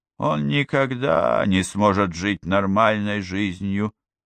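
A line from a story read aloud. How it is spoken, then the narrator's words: Quiet. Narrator (Russian): тихо произнесла Гламора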